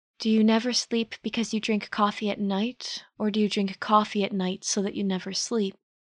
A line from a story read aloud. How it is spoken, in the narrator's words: Bert asked softly